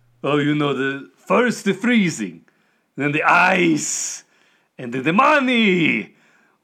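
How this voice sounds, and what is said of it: Character voice with thick accent. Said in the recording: “Your accent, despite the fact, is really thick”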